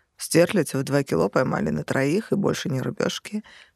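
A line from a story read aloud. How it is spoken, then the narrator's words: Snorting. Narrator (Russian): хмыкнул Шамиль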